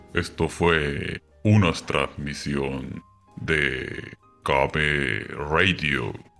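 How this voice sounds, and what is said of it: Radio announcer voice. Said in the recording (Spanish): “aclare su voz así, de esa voz de locutor que tiene ... Madre voz de locutor tienes”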